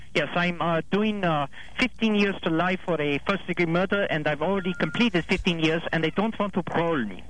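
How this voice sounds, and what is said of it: Poorly done put-on German accent. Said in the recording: “Hans from Germany ... He's slaughtering his accent”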